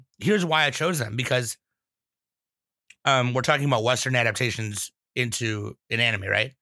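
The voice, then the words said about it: Slightly hoarse voice. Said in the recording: “my voice is still, it's getting better, but it's a little hoarse.”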